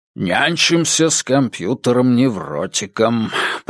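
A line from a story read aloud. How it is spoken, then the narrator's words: Muttering. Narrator (Russian): пробормотал Керну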